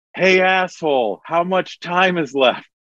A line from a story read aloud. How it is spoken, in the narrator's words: somebody yells